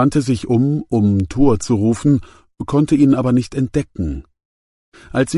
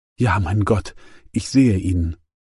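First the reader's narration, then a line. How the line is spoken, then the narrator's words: Whispered. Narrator (German): flüsterte sie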